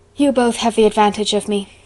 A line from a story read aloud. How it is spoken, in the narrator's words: sighed Anne